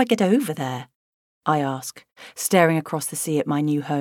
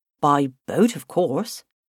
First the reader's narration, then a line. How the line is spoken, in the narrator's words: he says, in his broad Cornish accent